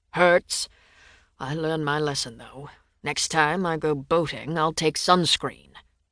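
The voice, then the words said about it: British accent. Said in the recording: “His enchanting British accent”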